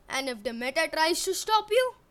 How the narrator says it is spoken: Eric laughed

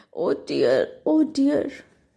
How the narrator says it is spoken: Chicken Licken groaned

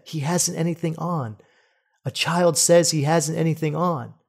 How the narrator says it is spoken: one person whispered to another

